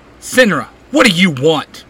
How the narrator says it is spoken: Simon snaps

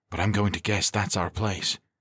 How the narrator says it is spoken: Galindo said quietly

